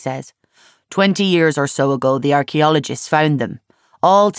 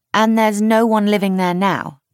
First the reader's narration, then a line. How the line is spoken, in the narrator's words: Charlie asks brightly